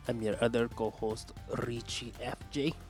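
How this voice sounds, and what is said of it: Bad generic Latino accent. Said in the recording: “Tell me more about that accent ... It's just a generic bad Latino accent.”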